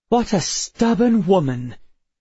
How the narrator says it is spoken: she exclaimed

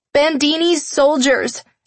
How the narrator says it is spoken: I shouted over the car's noise

